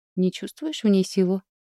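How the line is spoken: Calm question. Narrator (Russian): спокойно спросил вороний князь

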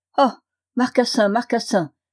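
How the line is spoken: Exclaimed. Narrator (French): s'écriait-il

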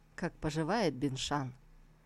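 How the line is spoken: Affectionate question, sarcasm dropped. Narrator (Russian): Тантайцзинь тут же сменил язвительность на благодушие и ласково спросил

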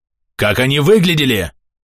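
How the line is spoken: Menacing bark. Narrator (Russian): рявкнул я, угрожающе

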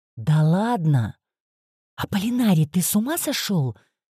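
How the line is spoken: Hissing. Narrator (Russian): прошипела я

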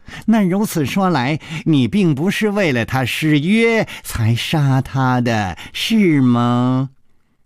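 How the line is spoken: Sighing. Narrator (Chinese): 楚留香暗中叹了一口气，说

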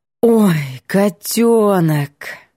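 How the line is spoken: Drawn out with deep sigh. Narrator (Russian): Протянула с грудным вздохом

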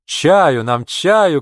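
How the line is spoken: Shouting. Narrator (Russian): кричал Сазоев

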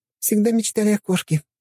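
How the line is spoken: Giggling. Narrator (Russian): хихикала Лена

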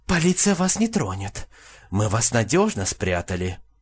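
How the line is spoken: Fervent whisper in ear. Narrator (Russian): медсестра жарко зашептала в ухо

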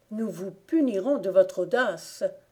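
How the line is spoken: Threatening exclamation. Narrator (French): s'écria le frère d'une voix menaçante

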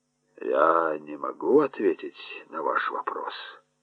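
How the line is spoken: Mutter. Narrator (Russian): пробормотал он

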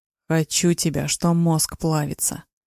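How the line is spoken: Growling. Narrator (Russian): Рычал

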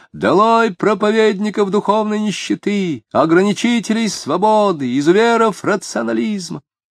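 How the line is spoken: Near-hysterical shouting from next room. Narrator (Russian): В соседней комнате кто-то почти истерически кричал

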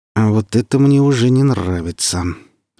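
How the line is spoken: Through gritted teeth. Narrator (Russian): вторично за акт процедил Сочинский

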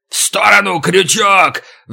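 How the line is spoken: Roar. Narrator (Russian): взревел

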